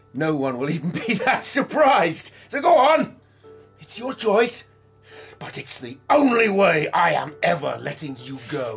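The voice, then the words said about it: Shouting angrily. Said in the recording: “Stop shouting!”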